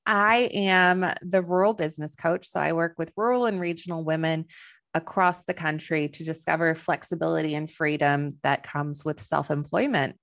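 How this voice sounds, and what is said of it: Slight Texan American accent. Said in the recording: “You might notice I have a little bit of an accent. I am originally from Texas”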